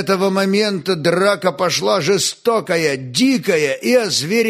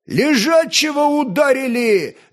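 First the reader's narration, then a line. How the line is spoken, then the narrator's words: Crowd yelling. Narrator (Russian): завопили кияне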